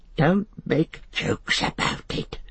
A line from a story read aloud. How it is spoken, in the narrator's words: hissed Gollum